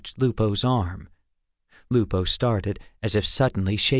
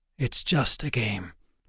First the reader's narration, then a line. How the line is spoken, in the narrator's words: Wayland said softly to Alex